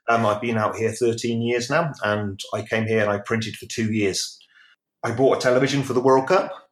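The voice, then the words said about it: British accent. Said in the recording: “As you can tell from the accent, I'm originally from the UK.”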